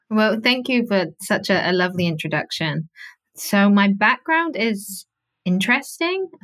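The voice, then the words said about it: Speaks with a slight accent. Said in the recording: “You've got a bit of an accent”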